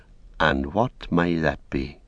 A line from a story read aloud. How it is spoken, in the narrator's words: said Frodo quietly